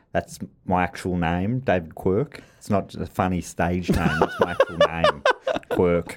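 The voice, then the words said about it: Imitates another person's voice. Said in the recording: “Is that your impression? It's pretty good.”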